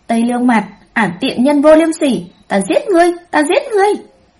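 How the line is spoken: Frenzied screaming. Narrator (Vietnamese): Nàng ta miệng còn điên loạn hét lên

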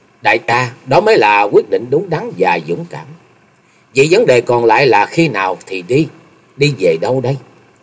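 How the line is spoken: Smiling. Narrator (Vietnamese): Chung Nhật Tự mỉm cười nói

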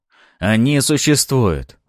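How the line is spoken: Exclamation. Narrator (Russian): воскликнул Арманов

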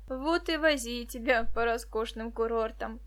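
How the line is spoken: Laughing. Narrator (Russian): засмеялся Борис

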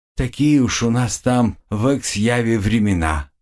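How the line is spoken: Heavy sigh. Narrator (Russian): тяжко вздохнул я

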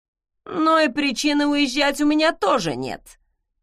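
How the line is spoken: Unkind snort. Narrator (Russian): недобро хмыкнул Айк

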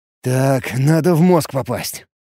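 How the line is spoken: Mutter. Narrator (Russian): пробурчал я

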